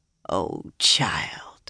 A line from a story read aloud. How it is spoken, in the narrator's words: Lini said sadly